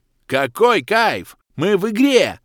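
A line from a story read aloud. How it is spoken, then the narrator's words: Yelling at top of lungs. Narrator (Russian): забуянивший игрок вновь заорал во все горло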